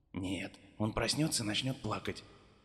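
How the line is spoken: Quiet. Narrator (Russian): так же тихо ответил отец Дэви

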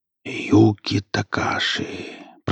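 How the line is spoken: Sleepy whisper. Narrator (Russian): прошептал сталкер, проваливаясь в сон

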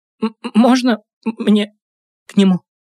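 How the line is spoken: Stammering question. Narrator (Russian): запинаясь, спросила

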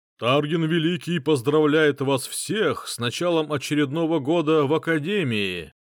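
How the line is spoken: Gloomy man's powerful announcement. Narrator (Russian): объявил какой-то мрачный мужик с мощным голосом

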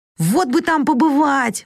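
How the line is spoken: Exclaimed. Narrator (Russian): воскликнула Джо

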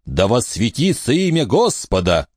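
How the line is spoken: Shout. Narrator (Russian): крикнул Джон

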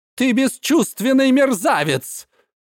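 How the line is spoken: Yelling in anger. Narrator (Russian): в злобе заорал

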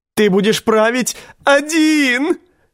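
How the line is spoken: Shrieked. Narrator (Russian): завизжал Ланиста

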